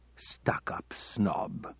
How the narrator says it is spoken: the Arab muttered under his breath

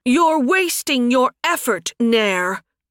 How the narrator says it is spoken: Suddenly, a familiar voice shouted

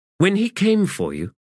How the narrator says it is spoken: said Aranect

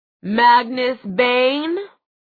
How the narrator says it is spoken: The deep, booming voice belonged to a surprisingly short man who looked to be in his early 30s

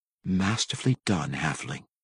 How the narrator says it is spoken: Cassius whispered into the night wind

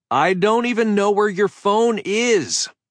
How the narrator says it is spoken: I yelled

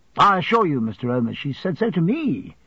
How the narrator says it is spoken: I returned eagerly

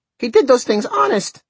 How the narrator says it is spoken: cried the little boy

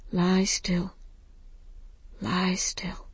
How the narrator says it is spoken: singing

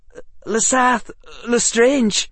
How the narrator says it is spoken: he says, his breath coming in short pants

